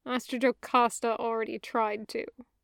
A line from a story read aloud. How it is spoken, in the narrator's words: Anakin said sullenly